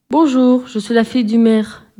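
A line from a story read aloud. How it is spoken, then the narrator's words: Plain. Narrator (French): dit-elle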